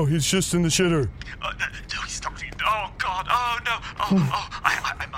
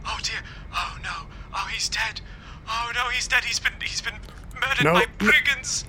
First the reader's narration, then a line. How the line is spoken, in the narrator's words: you hear a gasp on the other end, and the butler goes